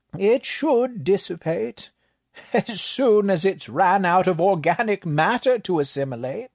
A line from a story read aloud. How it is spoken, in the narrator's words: the librarian offered with a chuckle